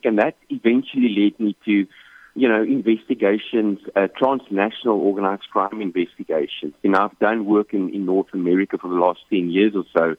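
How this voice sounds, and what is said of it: South African accent. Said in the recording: “You can probably pick up on the accent. So I'm originally from South Africa.”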